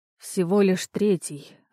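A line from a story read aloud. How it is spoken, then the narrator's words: Disappointed sigh. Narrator (Russian): разочарованно выдохнул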